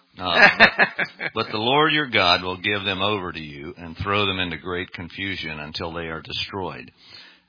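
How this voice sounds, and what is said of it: Dominican accent. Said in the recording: “My Dominican accent. ... Nobody can sound quite like”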